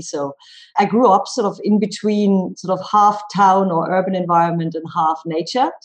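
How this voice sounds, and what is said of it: Slight German accent. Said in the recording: “You might detect a slight twang in my accent. I'm German and I grew up in Germany.”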